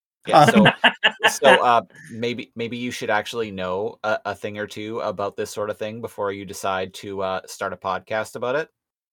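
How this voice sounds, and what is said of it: Condescending nerdy know-it-all voice. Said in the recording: “doing an impression ... doing it spot on ... It's very good ... I'm doing a an actually neckbeard”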